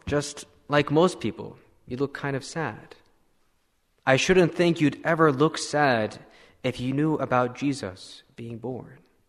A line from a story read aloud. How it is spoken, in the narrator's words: exclaimed the little girl